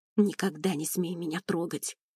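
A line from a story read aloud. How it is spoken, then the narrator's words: Quiet hiss. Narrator (Russian): тихо прошипела она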